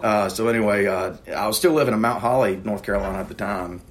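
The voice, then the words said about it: Southern American accent. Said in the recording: “my accent ... Are you from Texas? I get that a lot.”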